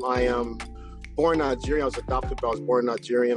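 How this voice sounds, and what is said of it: Speaks with a strong accent. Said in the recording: “in case you didn't hear anything ... because the accent too ... He's from Nigerian descent”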